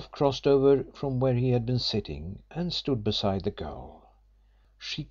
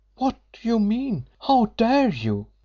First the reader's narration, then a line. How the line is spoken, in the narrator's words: she cried in an effort to be indignant